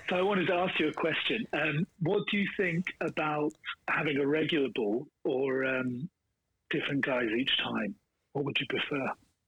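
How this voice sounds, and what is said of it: Speaks with a noticeable accent. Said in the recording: “Oh, the accent.”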